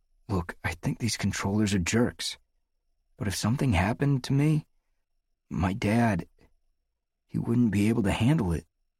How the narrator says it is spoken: In a quiet voice, said

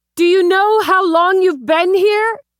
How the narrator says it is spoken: cleared her throat, shouted

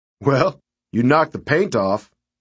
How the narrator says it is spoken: Thad said, chuckling

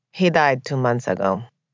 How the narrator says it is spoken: Marcela said flatly

